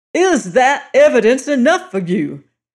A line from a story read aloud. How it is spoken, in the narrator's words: shouted O'Malley